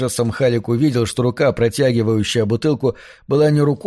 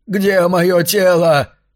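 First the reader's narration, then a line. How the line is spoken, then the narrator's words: Shouted. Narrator (Russian): кричал он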